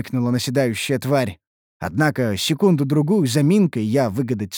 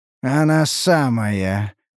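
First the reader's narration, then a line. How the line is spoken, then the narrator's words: Hoarse rasp. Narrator (Russian): прохрипел я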